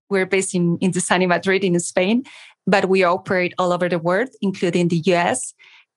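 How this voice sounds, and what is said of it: Spanish-accented English. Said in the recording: “We are in Madrid. You should notice my accent.”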